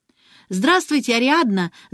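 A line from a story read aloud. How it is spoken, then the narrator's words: Clear ringing voice. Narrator (Russian): звонким голосом проговорила Алиса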